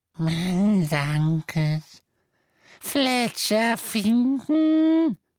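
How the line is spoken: Croaking. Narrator (German): krächzte

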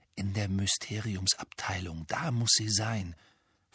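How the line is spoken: Whisper. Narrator (German): flüsterte Harry

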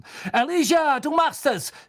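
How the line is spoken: Shouting into silence. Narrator (German): schrie in die Stille hinein, die sich über die Menge gesenkt hatte

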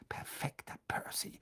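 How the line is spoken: Murmur. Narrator (German): murmelte Fred

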